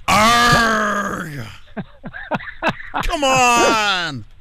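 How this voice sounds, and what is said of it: Bad pirate voice. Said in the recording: “worst pirate impression”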